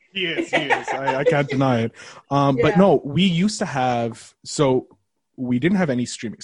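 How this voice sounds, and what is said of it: Canadian accent. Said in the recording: “That is a Canadian accent I hear.”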